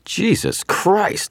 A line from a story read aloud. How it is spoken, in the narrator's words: someone shouted